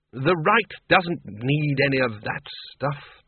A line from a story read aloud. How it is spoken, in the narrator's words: said Ridcully sharply